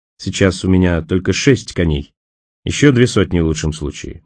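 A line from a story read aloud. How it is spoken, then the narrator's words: Grim, smiling. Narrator (Russian): мрачно улыбнулся Николас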